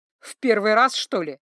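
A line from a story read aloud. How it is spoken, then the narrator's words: Gargoyle laughing again. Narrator (Russian): снова засмеялась горгулья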